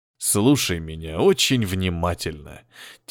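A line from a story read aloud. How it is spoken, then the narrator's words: Quiet speech. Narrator (Russian): тихо сказал Николай Сергеевич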